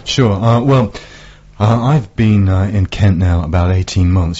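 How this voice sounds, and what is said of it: Northern English Yorkshire accent. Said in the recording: “You can probably tell from the accent I'm not a local lad. I'm from up north. ... any Yorkshireman ... Bradford”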